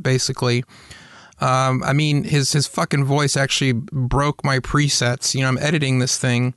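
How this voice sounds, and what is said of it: Slightly off, congested-sounding voice. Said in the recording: “I did have a cold when we recorded this, so my voice sounds a little off... my voice sounds like a chipmunk”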